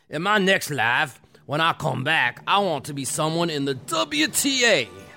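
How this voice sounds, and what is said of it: Put-on accent quoting Raymond Moore. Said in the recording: “I don't even know if he has this accent, but I'm going to do it in this accent.”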